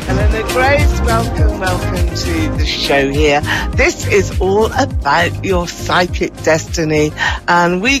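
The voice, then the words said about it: British accent from near London. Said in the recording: “You can probably tell from my accent here, I'm from the UK, just outside of London”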